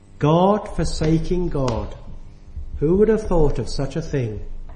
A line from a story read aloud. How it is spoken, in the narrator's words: he sighed